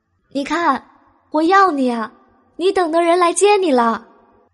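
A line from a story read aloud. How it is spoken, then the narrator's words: Loud shout. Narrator (Chinese): 他站在他家楼下，大声喊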